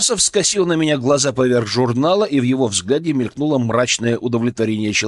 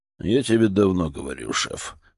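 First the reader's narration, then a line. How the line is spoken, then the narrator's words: Grumbled under breath. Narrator (Russian): буркнул одними губами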